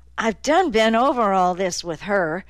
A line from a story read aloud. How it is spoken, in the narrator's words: she said irritably